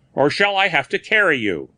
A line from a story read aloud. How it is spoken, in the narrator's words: said fiercely